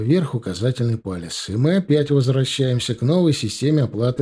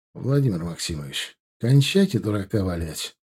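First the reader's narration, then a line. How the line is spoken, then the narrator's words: Tired. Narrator (Russian): устало сказал я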